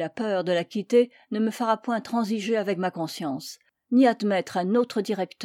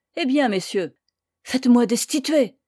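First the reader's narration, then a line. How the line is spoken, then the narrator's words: Old priest, trembling cry. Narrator (French): s'était écrié le vieux curé d'une voix tremblante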